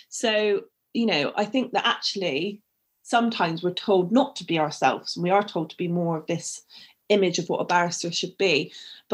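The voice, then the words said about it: Bristol English accent. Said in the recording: “the Bristolian barrister ... I used to get ridiculed for my accent ... I'd need to lose the accent”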